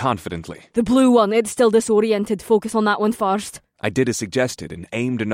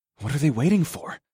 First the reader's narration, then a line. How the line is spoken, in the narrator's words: I muttered under my breath